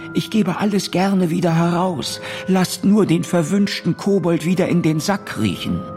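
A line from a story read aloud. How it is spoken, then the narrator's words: Innkeeper's meek call. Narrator (German): rief der Wirt ganz kleinlaut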